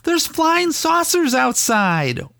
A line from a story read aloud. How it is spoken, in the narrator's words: She yelled